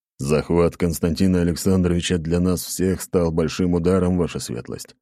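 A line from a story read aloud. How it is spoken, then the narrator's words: Gloomy reply. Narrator (Russian): мрачно ответил Ротай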